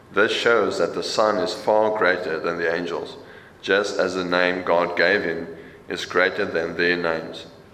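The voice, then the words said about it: Afrikaans-accented English. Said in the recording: “with an Afrikaans accent, if you grew up Afrikaans”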